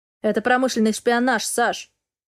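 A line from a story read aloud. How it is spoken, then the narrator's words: Boss's cold statement. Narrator (Russian): холодно заявляет босс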